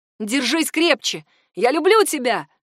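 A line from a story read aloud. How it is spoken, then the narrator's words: Shout. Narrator (Russian): крикнул Милан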